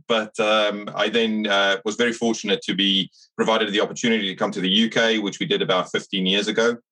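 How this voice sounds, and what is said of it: Slight South African accent. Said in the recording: “I grew up in South Africa, so you'll pick up a bit of a twang.”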